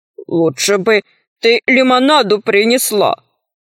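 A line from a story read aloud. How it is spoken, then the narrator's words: Unhappy grumble. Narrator (Russian): проворчал несчастный Арамозик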